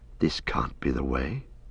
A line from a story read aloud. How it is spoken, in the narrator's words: Frodo whispered